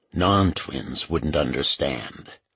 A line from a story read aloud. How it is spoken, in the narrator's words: Ritter said in his quiet voice